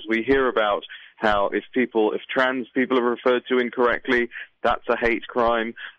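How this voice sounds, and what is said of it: British accent. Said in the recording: “as you can hear from my accent, is I'm not an American. I'm from the United Kingdom”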